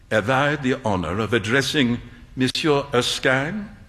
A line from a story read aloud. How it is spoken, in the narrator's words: An old gentleman said in a slight French accent